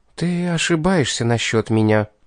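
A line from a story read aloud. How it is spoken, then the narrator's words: Restrained stubborn, after deep breath. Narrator (Russian): она сдержалась и, глубоко вздохнув, упрямо произнесла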